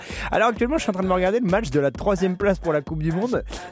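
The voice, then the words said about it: French accent. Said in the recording (French): “vous l'entendez à mon accent, je suis français”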